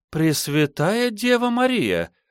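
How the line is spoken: Exclaiming. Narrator (Russian): воскликнула

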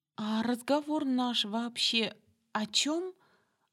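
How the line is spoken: Timid, forced out. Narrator (Russian): робко выдавила, борясь с возникшим оцепенением

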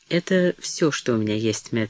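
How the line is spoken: Calm. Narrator (Russian): сказала она спокойно

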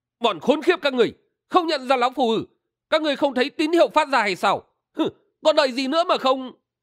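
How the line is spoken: Furious scolding shout. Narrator (Vietnamese): Phiêu Vân Tẩu Thang Kỳ nổi cơn thịnh nộ, quát mắng

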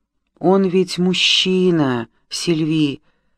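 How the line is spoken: Whispered. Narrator (Russian): прошептала Мари

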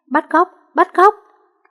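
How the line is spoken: Pained child screaming. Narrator (Vietnamese): Cậu bé đau muốn gãy xương, miệng không ngừng la hét

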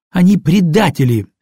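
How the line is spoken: Angry. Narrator (Russian): сердито ответила Катя

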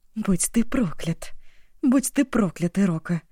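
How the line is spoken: Muttering while stumbling. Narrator (Russian): бормотала она, спотыкаясь на вылезающих из сухой земли твердых корнях каатинги

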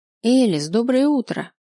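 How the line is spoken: Joyful. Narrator (Russian): радостно сказала Софья

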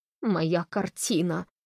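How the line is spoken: Moan. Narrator (Russian): простонал Холли

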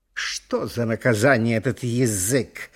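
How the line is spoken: Grumbling. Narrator (Russian): ворчали зубы

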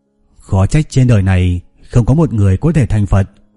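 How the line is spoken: Quiet murmur. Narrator (Vietnamese): Huyền Trang nhỏ giọng nói thầm

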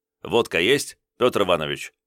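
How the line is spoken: Snort. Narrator (Russian): хмыкнул

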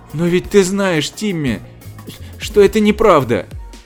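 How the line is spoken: Sobbing. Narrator (Russian): всхлипывая, сказала мисс Фэллоус

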